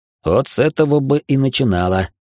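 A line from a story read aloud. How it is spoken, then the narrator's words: Wry snort. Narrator (Russian): хмыкнул я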